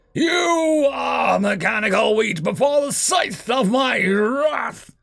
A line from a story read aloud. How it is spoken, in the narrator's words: the Terran roared